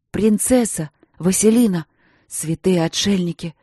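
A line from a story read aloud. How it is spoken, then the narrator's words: Cursing through teeth. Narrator (Russian): Мариан ругался сквозь зубы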